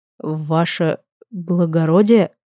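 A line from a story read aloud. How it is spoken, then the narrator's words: Surprised mumble. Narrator (Russian): Удивленно промямлили мне в макушку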